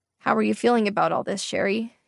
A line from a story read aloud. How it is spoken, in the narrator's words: he asked, his voice flat